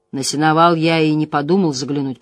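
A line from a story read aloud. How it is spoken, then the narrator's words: Mumbled. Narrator (Russian): пробормотал он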